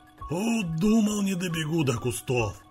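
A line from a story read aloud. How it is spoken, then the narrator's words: Playful grumbling, old man. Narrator (Russian): продолжал шутливо ворчать дед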